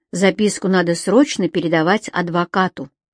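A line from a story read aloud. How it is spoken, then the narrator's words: Plain. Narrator (Russian): сказала Женя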